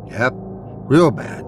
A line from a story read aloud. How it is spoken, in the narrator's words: says